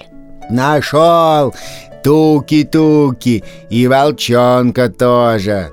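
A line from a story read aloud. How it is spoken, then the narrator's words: Loud distant declaiming. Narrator (Russian): громко декламировал Лапа где-то вдалеке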